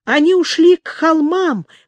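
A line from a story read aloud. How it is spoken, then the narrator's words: Breathless exhale. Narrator (Russian): выдохнул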